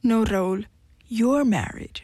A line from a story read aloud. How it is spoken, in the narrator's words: she said